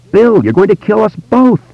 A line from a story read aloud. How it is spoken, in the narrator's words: Audra cried out, and although there was terror in her voice, she was also laughing